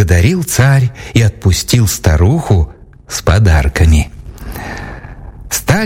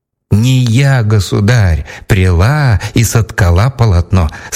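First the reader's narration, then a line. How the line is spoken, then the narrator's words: Plain, old woman. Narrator (Russian): сказала старуха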